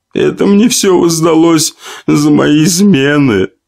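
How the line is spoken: Tearful young woman. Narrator (Russian): продолжила сквозь слезы полная молодая женщина

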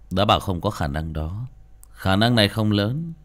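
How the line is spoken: Cold. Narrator (Vietnamese): Tường Nguyệt lạnh lùng

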